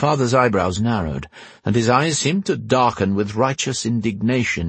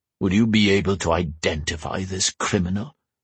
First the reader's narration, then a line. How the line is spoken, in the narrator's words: he growled